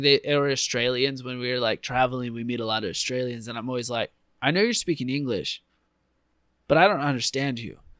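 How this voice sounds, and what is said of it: Thick non-native English accent. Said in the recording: “my accent's thick ... do I have a thicker accent than that guy?”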